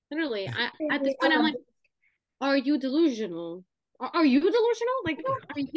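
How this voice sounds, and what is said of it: Put-on New Jersey accent. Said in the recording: “now I've been talking in a Jersey accent”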